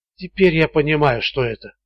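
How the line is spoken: Whisper. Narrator (Russian): прошептал он

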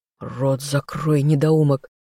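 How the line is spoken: Quiet hiss near ear. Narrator (Russian): тихое шипение над ухом

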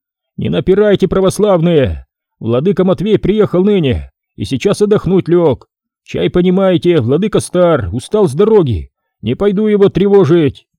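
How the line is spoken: Monk shouting. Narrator (Russian): Монах кричал

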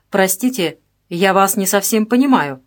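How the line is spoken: Sharp official tone. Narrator (Russian): произнес Можаев резким официальным тоном

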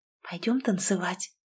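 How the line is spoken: Whisper in the ear. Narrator (Russian): шепнула на ухо

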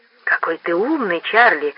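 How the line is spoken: Respectful whisper. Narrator (Russian): с уважением прошептала Пат

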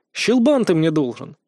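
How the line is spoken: Snort. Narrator (Russian): хмыкнул я

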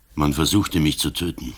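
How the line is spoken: Plain. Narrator (German): sagte der Kommissär

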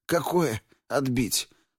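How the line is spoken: Weak whisper. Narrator (Russian): слабо прошептал Яша

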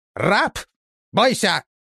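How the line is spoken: Shout. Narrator (Russian): крикнул Говорун

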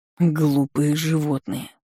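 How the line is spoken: Muttered through teeth. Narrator (Russian): процедил он

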